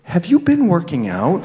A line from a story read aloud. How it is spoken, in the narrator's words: said in a half whisper